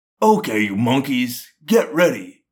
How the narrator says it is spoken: a large human grunted

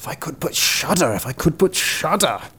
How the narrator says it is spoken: began to mutter to himself

